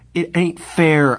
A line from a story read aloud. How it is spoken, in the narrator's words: I cried passionately